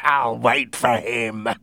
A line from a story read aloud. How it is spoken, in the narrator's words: he said, with a horrible laugh